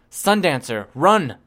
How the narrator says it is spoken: I shouted

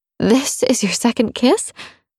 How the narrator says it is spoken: let out a strangled laugh

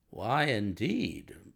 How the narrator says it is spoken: murmured Holmes

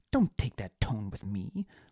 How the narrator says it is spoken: Liana snapped

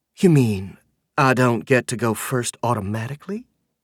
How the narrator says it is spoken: She asks, lengthening her vowels into her every once in a while southern accent

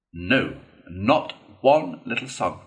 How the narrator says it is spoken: replied the rat firmly, though his heart bled

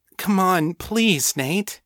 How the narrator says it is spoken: she begged

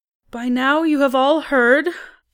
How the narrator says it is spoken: she said, her voice not quite steady

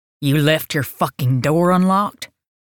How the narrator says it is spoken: Stone growled

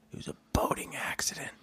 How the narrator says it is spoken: somebody behind the door whispers into his ear

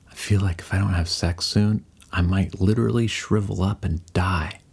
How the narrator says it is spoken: to whisper

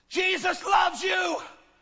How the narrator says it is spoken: shouted out in this dark alley

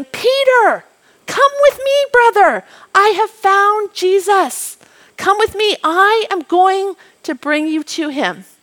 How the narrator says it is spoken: Andrew ran down towards the lane on his way to home shouting

